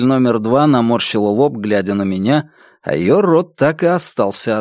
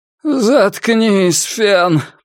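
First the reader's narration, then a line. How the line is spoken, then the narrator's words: Groaned. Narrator (Russian): простонала цель номер пять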